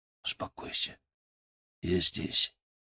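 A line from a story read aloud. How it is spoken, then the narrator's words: Quiet. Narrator (Russian): сказал я тихо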